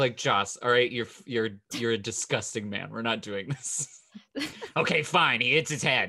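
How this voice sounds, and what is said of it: Usual voice. Nothing is said of it.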